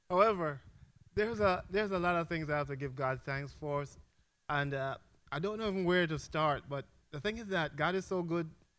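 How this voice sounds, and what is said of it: Jamaican accent. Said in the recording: “I'm from Jamaica. I don't know if my accent gives it away”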